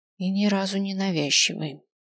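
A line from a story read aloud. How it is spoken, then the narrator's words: Muttered. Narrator (Russian): пробормотал я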